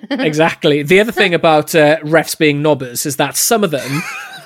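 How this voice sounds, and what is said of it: Welsh accent. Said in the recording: “it's a lovely word in a Welsh accent, that, by the way, isn't it? It's got a lovely little, really nicely, lovely, nice one.”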